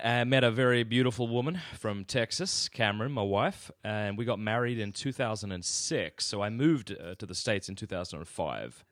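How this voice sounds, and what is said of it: Australian accent. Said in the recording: “it doesn't sound to me at all like you have a Southern accent ... my accent is much more Southern than yours ... I come from Australia”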